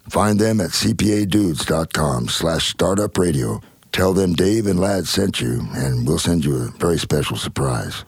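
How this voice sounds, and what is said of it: Deep, bassy baritone voice. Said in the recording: “What a sexy voice he has ... He's got that big old deep baritone voice. ... Sounds like he's been smoking cigarettes for the last 30 years. ... There's a lot of bass and testosterone”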